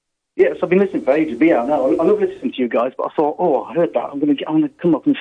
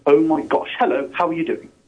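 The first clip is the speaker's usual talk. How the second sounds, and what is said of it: Put-on posh voice. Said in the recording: “put on the posh voice.”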